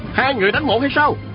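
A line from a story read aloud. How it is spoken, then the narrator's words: Shout. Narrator (Vietnamese): Sa Thiên Quảng la lên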